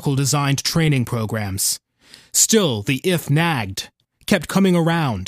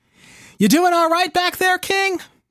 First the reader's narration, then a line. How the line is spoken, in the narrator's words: Steve yells